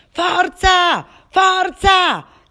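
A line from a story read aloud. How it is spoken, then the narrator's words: Fans shouting. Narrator (Italian): gridavano i tifosi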